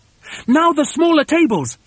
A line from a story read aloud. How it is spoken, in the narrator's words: shouted Mugglewump